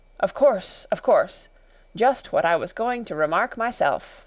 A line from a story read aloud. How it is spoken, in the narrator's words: The Dormouse shook its head impatiently and said, without opening its eyes